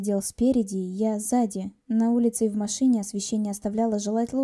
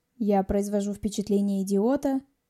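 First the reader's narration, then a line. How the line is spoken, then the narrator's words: Snorted. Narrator (Russian): фыркнул Антон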